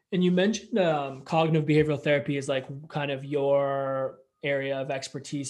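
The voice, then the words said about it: Canadian accent. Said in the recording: “your Canadian accent”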